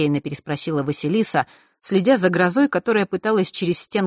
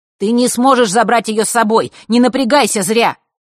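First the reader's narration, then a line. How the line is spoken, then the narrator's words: Shouted. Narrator (Russian): крикнул он девочке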